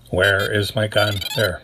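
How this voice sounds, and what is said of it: Robotic voice. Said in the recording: “that's my best robot voice. ... My best Robocop voice?”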